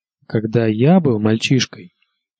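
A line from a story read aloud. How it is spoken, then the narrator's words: Plain. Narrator (Russian): ответил Тирион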